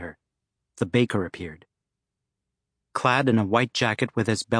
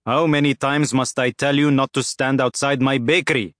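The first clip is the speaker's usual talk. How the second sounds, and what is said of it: Thick accent with emphasized K's. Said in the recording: “emphasizing his K's in a thick accent.”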